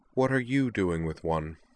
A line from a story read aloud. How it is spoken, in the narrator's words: asked Liza, her voice cold and a little dangerous